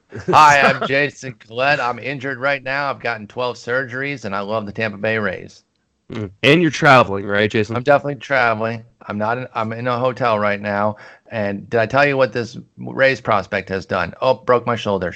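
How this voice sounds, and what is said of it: Impression of Jason Collette. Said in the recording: “Pretty good imitation. I did not know if that was Jason or if it was me.”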